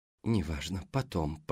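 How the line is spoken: Muttered. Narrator (Russian): пробормотала Даяна

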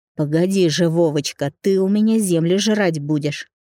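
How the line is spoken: Cursing through gritted teeth. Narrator (Russian): ругался он сквозь зубы

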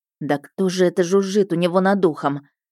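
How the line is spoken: Surprised snort. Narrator (Russian): Широс удивленно хмыкнул

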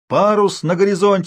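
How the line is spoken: Shouting. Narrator (Russian): закричал дежуривший в корзине Толя

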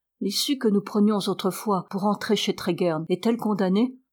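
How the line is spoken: Plain. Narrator (French): demanda Étienne

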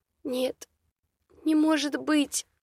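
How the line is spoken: Whimpering like wounded animal. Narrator (Russian): Проскулила девица, будто раненая волчица

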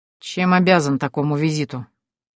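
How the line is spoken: Grumbled. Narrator (Russian): проворчал он

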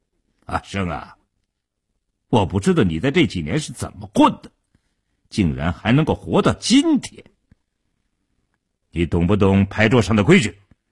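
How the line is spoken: Cold, hostile. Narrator (Chinese): 傻彪当即翻了脸，冷冷地说道

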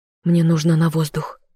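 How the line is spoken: Breathless female voice. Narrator (Russian): выдохнула я

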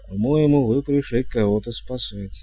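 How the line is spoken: Timid reminder. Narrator (Russian): робко напомнил он

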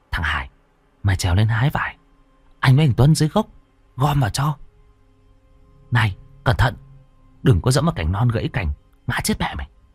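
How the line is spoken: Boys whispering. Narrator (Vietnamese): hai thằng chúng nó thì thào

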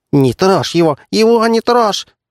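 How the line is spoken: Squeaky gnome voice. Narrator (Russian): запищал гном

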